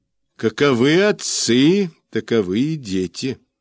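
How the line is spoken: Plain. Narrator (Russian): сказал он

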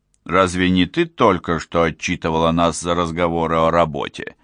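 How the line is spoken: Plain. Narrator (Russian): спросил Уго

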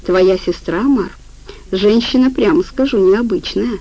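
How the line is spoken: Calm reply. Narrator (Russian): спокойно ответил Афанасий

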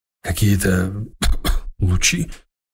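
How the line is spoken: Hoarse question. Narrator (Russian): охрипшим голосом спросил слушатель

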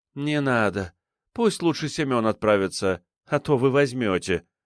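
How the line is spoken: Heavy sigh, woman. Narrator (Russian): вздохнула она тяжело

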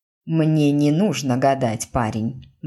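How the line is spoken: Grim. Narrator (Russian): мрачно сказала

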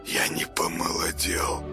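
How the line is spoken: Muttered. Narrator (Russian): пробормотал он

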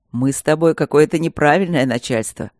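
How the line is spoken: Grumbled. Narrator (Russian): проворчал он

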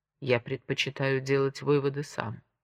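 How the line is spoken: Calm reply. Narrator (Russian): спокойно ответил Монтанелли

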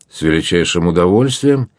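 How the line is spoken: Cheerful reply. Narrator (Russian): весело ответил Дон Филиппе

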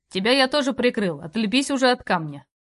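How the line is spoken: Grumbling. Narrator (Russian): не приминув проворчать

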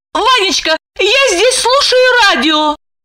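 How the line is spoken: Terrified squeak. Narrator (Russian): пропищала еле живая от страха Липочка

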